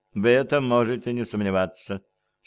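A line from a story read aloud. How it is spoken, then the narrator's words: Dry reply. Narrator (Russian): сухо ответила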